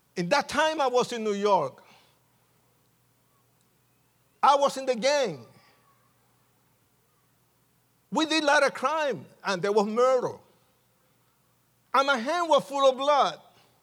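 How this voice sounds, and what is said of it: Puerto Rican accent. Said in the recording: “because I'm Puerto Rican, and you can tell by my accent, it's so sexy”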